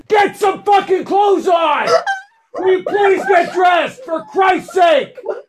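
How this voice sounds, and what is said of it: Yelling angrily. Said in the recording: “I'm sorry I'm yelling!”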